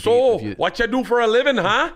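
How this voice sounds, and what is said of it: Put-on Canadian accent. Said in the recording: “If that's his Canadian accent. he does mostly impressions.”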